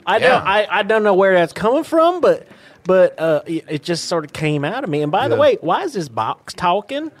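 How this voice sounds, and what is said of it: West Virginia accent. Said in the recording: “I like your accent. You from West Virginia?”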